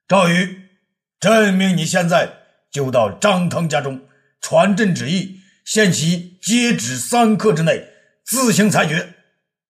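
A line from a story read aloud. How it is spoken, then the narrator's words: Emperor's furious shout. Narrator (Chinese): 武帝怒不可遏的叫道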